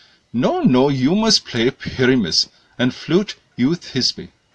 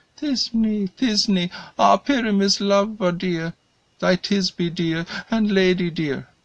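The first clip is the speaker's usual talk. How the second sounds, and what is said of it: Tiny, high-pitched little voice. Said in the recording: “I'll speak in a monstrous little voice.”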